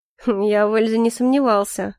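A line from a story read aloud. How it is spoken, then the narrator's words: Amused snort. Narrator (Russian): хмыкнул Калипсо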